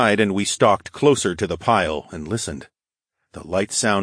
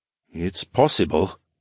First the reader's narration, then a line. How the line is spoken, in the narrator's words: he murmured